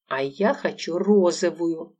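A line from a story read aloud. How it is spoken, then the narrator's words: Exclamation. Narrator (Russian): воскликнула Лола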